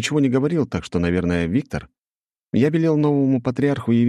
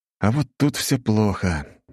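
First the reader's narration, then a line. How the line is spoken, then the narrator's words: Sigh. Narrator (Russian): вздохнул я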